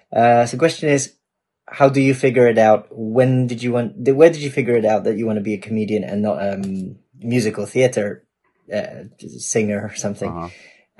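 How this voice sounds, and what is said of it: Mixed English and Polish accent. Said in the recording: “what a weird accent. He's got a little bit of English in there, but he's also got Polish.”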